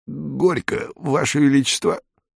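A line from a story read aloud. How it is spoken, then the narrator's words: Choked voice. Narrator (Russian): сдавленным голосом произнес Будах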